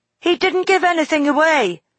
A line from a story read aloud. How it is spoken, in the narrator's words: he cried